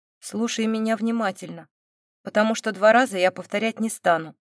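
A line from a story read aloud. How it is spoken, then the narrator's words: Cold, curt. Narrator (Russian): холодно бросил Эмбрис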